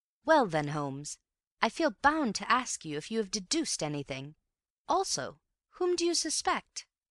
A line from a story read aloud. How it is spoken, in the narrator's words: After waiting hopefully for a minute or two, Bill said in a firm voice